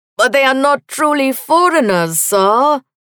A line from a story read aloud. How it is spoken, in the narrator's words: whined